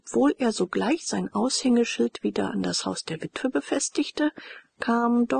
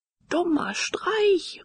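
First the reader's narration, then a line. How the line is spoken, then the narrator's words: Calling out. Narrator (German): rief er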